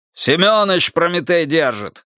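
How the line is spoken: Loud bark. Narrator (Russian): гаркнул тот

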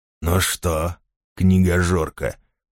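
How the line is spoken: Hiss in ear. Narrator (Russian): прошипел он ей в ухо

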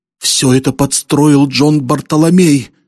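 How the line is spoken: Distressed exclamation. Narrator (Russian): воскликнула несчастная

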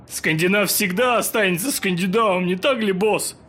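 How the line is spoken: Cheerful question. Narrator (Russian): Весело спросил Бионди

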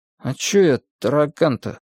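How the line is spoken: Dejected, sinking voice. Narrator (Russian): совсем уже упавшим голосом осведомился знаток

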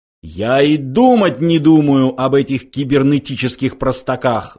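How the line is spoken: Roaring. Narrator (Russian): взревел он

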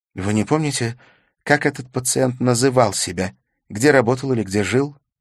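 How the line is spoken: Heavy sigh. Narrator (Russian): Смит тяжело вздохнул

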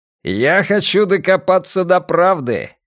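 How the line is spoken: Shouted after someone. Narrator (Russian): крикнул Дженкинс ему вслед

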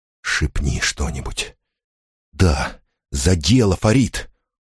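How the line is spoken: Whispering. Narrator (Russian): зашептал

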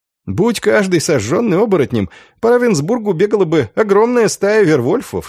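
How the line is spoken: Laughing. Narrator (Russian): смеялся Андреас

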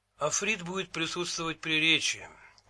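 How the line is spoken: Grumbling. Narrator (Russian): проворчал Лавлейс

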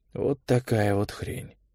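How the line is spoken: Shaky muttering. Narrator (Russian): пробормотал Олег, пытаясь смирить дрожь в конечностях

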